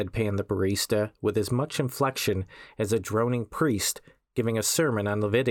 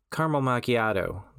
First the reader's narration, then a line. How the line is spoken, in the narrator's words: the werewolf said